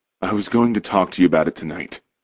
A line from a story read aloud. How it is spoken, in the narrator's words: he says, his voice low enough for me just to hear